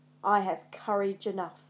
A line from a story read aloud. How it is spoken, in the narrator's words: growled